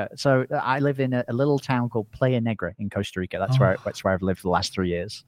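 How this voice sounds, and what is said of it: Semi-Australian-sounding English accent. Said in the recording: “I sound semi-Australian. I'm actually English originally. I just speak to Americans all the time. So my parents make fun of my accent constantly.”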